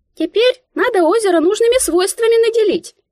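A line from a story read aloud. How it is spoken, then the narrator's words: Squeak inside head. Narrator (Russian): Пискнула в моей голове Мика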